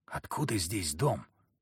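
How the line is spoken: Whispered. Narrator (Russian): прошептал Захар

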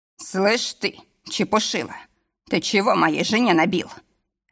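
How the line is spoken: Bark. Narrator (Russian): рявкнул

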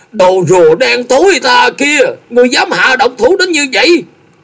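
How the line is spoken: Frenzied, cracked scream. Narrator (Vietnamese): lão như một con hổ phát cuồng, lạc giọng hét lớn

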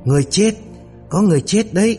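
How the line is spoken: Anguished screaming. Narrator (Vietnamese): đột nhiên kêu gào thảm thiết, la hét

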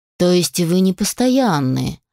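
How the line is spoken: Gloomy statement. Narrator (Russian): мрачно констатировал Алишер

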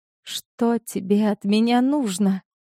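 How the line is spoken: Trembling voice. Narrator (Russian): спросила дрожащим голосом

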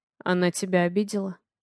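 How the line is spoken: Hoarse, uncertain question. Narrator (Russian): Хрипло спрашиваю я, не зная, что делать с собой

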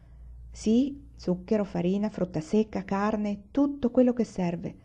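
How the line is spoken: Plain. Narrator (Italian): rispose papà

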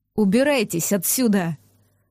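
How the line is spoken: Savage growling. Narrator (Russian): прорычал дикарь

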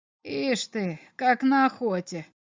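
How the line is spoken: Muttered. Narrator (Russian): пробормотал комиссар

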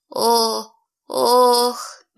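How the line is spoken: Timid moan. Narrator (Russian): несмело простонала я

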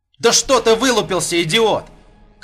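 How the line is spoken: Shout. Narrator (Russian): крикнул Вадим

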